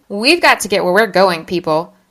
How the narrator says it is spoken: I shouted, suddenly invigorated with an actual task to perform

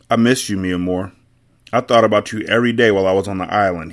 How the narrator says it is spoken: he said

